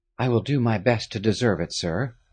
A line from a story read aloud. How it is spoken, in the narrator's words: Harry said quietly